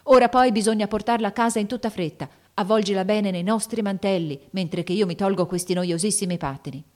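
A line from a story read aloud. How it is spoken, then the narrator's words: Shouted. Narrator (Italian): gridò Lori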